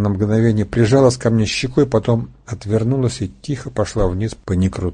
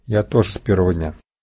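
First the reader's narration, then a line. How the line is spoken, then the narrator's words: Dull flat voice. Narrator (Russian): глухим невыразительным голосом произнесла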